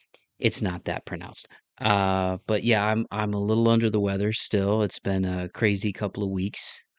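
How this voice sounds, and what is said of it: Lower, slightly sick-sounding male voice. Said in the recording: “my voice is a little bit different. It's a little lower, not quite a baritone, but not quite the normal Midwest, you know, accent”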